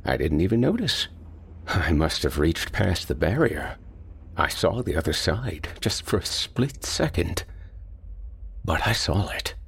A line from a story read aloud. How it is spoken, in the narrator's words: He mumbled